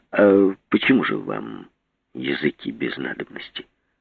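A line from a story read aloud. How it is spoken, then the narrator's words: Calm question. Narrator (Russian): спросил спокойно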